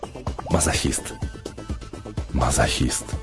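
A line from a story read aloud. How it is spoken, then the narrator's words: Whisper. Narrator (Russian): прошептав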